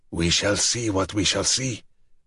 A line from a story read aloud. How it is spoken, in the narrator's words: Dragozani growled, more soberly now